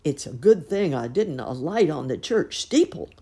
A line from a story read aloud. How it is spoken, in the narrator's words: grunted Mrs